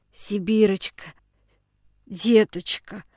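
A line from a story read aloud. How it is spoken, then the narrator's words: Old man's hoarse groan. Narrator (Russian): послышалось хриплым стоном из груди дедушки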